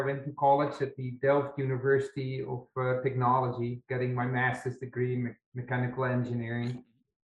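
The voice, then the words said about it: Dutch accent in English. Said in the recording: “this funny accent ... I'm from the Netherlands”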